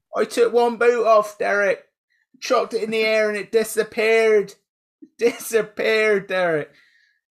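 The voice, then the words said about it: Inconsistent put-on regional accent. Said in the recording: “This is absolute multitude of accents going on down here. ... We need a dialect coach.”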